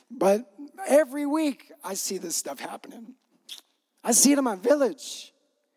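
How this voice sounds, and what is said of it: Choked-up, emotional voice. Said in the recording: “I get choked up right here. You guys mess me up.”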